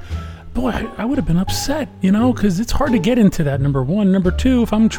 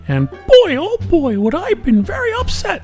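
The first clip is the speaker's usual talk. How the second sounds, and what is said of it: Poor Mickey Mouse cartoon voice. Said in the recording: “That was a really bad Mickey Mouse impersonation”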